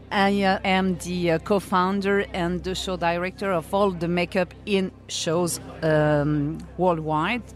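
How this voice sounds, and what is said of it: French accent. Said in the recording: “I'm French, so sorry for the accent”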